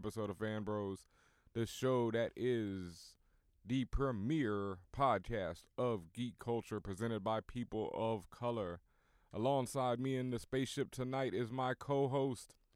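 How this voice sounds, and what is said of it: Sleepy, low-energy voice. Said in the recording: “I'm sounding sleep. ... You sound asleep. Wake up.”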